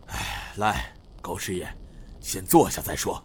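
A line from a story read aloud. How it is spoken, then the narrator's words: Sighing. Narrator (Chinese): 马义坤叹声道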